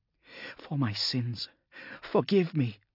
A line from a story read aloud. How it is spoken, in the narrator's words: she said, and gasped for breath